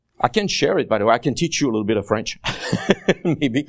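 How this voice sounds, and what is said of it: French-accented English. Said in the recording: “I do have an accent, as Pastor mentioned ... the accent does make you kind of, what did he say?”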